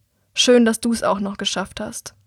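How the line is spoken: Unfriendly deep voice. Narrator (German): Er sagt nur wenig freundlich und mit tiefer Stimme

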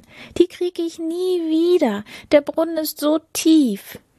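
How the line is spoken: Princess calling out. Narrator (German): rief die Prinzessin

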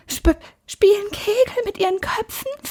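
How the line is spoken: Whispered. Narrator (German): flüsterte Annika

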